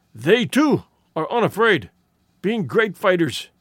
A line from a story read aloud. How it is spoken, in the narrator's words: he wheezed